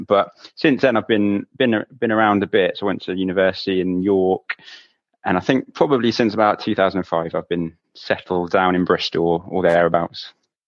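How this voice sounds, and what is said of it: West Country English accent. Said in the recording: “the giveaway from the accent ... you definitely got a Western, well, I say Western rather than West Country accent”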